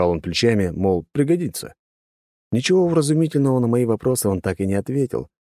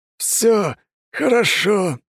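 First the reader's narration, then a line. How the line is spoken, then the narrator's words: Through gritted teeth. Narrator (Russian): сквозь зубы процедил Людвиг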